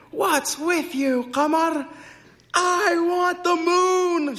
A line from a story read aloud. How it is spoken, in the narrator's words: yelled